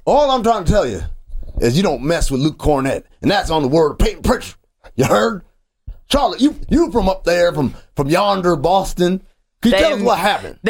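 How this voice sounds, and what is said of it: Baby Billy impression, Walton Goggins' character. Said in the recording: “This is not a Twang. This is a Baby Billy accent from Righteous Gemstones. ... This isn't like a Southern accent. This is a very this is Walton Goggins, the actor, doing Baby Billy's voice.”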